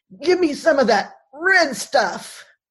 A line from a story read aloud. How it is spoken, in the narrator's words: He gasps to Jacob